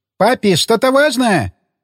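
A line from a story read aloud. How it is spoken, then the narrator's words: Shout. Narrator (Russian): прокричала Росита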